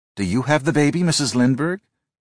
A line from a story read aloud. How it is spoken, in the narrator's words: Gao asked anxiously